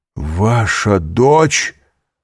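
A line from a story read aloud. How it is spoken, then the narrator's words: Horrified, astonished exclamation. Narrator (Russian): С ужасом и изумлением воскликнул Довриньи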